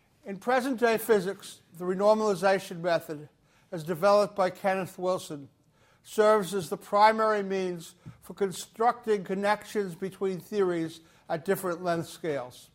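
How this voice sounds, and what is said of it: Regional accent. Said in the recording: “my regional accent”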